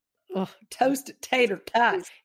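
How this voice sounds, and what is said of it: Put-on Southern accent. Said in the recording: “say it with a southern accent ... It's really fun to talk in that accent.”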